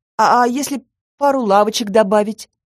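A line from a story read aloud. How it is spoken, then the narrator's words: Timid request. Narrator (Russian): робко попросила я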